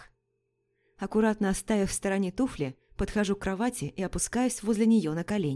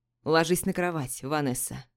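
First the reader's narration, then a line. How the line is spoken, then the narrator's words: Hoarse. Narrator (Russian): Произносит хрипло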